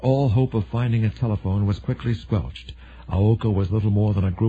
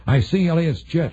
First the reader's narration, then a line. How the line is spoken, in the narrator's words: Briggs shouted